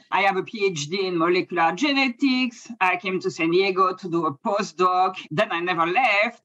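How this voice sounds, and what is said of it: French accent. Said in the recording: “I'm from France. That's the accent, even though I've been in the US for a long time.”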